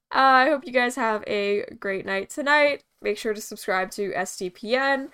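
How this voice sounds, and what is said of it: American accent. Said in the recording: “I sound American”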